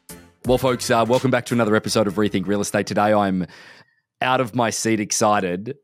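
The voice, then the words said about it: Australian-accented English. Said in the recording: “he's got a few cool Australian ties that he loves. And he loves Australia. He loves my accent.”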